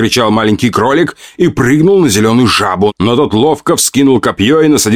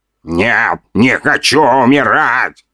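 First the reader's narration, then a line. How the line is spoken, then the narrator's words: Mumbled. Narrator (Russian): пробормотал 2-метровый воин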